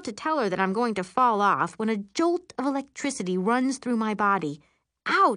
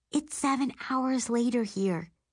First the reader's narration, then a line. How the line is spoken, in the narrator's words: she whispers